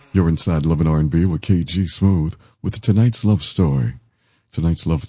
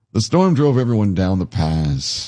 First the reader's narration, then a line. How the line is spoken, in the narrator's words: the innkeeper sighed